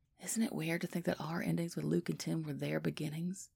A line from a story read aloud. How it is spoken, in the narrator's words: Biddy whispers